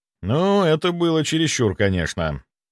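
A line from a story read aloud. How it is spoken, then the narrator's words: Sighing. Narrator (Russian): вздохнул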